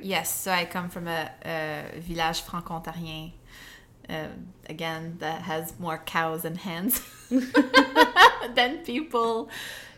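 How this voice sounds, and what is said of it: Strong French accent. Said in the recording (French): “oh no, it's very present, an accent”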